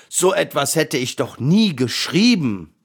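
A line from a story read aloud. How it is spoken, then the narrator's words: Roared. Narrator (German): brüllte der Löwe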